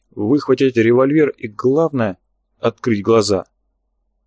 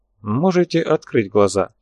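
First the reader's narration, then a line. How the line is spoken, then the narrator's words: Calm. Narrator (Russian): спокойно произнес Ганджабов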